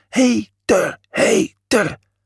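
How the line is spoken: Crowd cheering and shouting. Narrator (Dutch): Alle mensen juichten en schreeuwden

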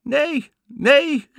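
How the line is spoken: Calling back. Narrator (Dutch): riep Anna terug

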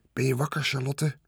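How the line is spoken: Soft question. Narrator (Dutch): vroeg hij zacht

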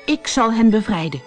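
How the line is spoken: Calling out. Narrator (Dutch): riep Peter Pan

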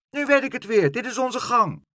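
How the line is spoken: Happy little child's call. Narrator (Dutch): toen het kleine stampertje de galerij zag, riep hij blij

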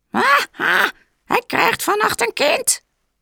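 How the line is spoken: Witches shrieking. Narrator (Dutch): krijste de heksen

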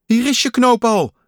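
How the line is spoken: Calling out. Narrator (Dutch): riep Kikker

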